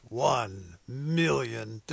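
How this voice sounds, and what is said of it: Dramatic movie trailer announcer voice. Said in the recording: “It is hard not to say that in movie announcer voice.”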